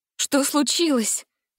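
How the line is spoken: Frightened question. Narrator (Russian): испуганно спросила Гретель

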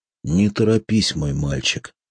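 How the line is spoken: Calm, gentle. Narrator (Russian): спокойно и ласково прервал его Портокос

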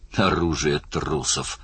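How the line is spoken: Muttered. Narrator (Russian): пробормотал Оттор

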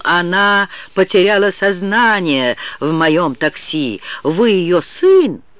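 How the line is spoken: Man exclaiming. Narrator (Russian): Мужчина воскликнул

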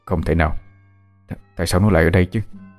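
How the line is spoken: Mutter. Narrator (Vietnamese): Chú lẩm bẩm trong miệng

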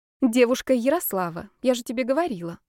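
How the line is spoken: Soft. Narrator (Russian): мягко сказала Маргарита Сергеевна

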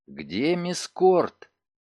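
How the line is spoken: Quick whispered question. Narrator (Russian): Спейд быстро шепотом спросил

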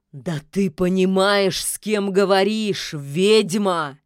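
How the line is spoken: Growl. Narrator (Russian): зарычал

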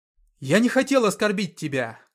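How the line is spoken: Shout. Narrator (Russian): крикнул он

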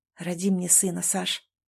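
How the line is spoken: Tender whisper. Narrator (Russian): Прошептал, целуя ее нежно, едва касаясь губ

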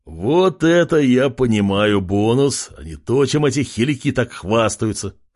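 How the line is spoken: Laughing loudly. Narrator (Russian): Хохотал он

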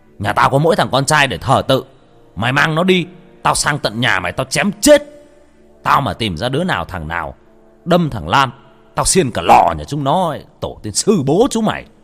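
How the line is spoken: Furious shout. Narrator (Vietnamese): chú Lâm hét

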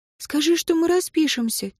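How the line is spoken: Quiet prompting. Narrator (Russian): тихо подсказала Лора

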